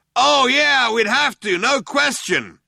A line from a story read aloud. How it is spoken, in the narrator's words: the other one yelled back